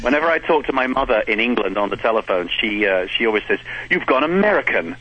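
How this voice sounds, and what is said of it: English accent. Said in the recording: “I have a ridiculous accent that gives it away ... How you haven't lost that accent yet? ... 12 years in this country and I still sound like this”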